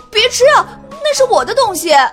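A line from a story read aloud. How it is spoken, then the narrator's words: Loud shout. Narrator (Chinese): Kevin 大喊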